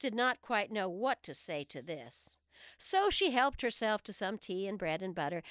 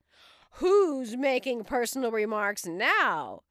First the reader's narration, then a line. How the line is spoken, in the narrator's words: the Hatter asked triumphantly